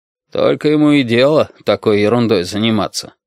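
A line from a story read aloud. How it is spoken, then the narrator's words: Grumbling, upset over loss. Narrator (Russian): ворчал отец Дмитрий, переживая очередной проигрыш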